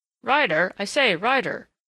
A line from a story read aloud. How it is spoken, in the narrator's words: said a hurried voice, Thatcher's voice, and Thatcher came hastily forward in perturbed urgency